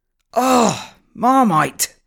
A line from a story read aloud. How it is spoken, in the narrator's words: screamed David desperately